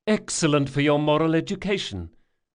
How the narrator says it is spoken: Jean had cried

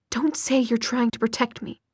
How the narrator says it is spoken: she said fiercely

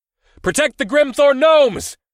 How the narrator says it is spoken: I shouted so loud that it tore up my throat

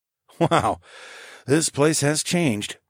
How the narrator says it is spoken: I muttered

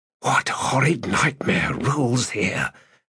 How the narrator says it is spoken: Skintik asked in a whisper

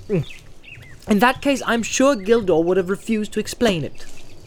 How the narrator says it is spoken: said Frodo sharply

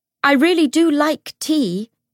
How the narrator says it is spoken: James shouted from the bottom of the steps

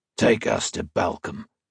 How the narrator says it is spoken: the gruff man said

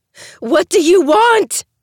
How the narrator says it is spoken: I scream so loud, my throat burns

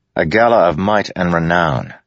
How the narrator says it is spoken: Adolin said

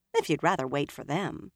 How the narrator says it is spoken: Min said dryly

